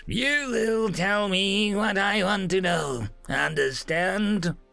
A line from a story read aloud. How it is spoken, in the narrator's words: he chirped